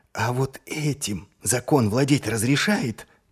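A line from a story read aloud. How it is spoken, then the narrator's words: Whispered. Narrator (Russian): прошептал Маркоу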